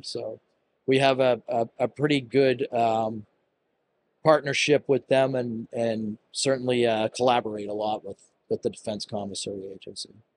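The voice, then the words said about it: Boston accent. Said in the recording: “my Boston accent. And I tend to add an extra R at the end”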